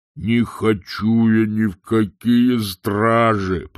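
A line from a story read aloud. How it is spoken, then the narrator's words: Grumbling. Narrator (Russian): проворчал Углеморт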